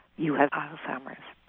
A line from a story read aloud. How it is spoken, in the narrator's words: said very clearly and quietly